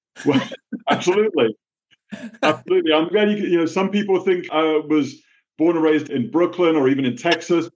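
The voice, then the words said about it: New England accent. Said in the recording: “you have accepted the accent ... the New England accent ... Standard New England accent”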